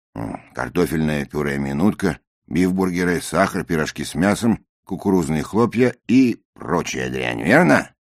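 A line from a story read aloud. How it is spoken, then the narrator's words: Even, level tone. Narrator (Russian): сказано все было довольно ровным тоном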